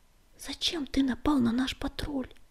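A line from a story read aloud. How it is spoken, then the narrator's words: Whisper. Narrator (Russian): прошептал он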